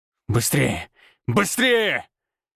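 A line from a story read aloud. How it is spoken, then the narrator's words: Growling. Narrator (Russian): рычал я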